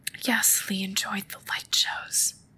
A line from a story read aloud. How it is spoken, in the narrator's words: whispered